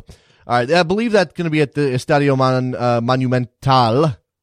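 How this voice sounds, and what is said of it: Terrible attempted Spanish accent. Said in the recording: “That's my terrible accent right there. I'm working on Spanish”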